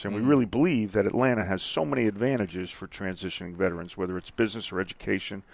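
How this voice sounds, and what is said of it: Non-Southern American accent. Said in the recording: “You could tell by my voice, I'm not from Atlanta. I ain't from the South.”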